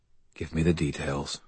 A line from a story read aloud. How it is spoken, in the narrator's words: I said quietly